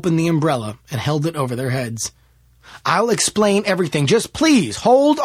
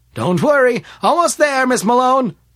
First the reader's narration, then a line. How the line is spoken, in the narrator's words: shouted Smith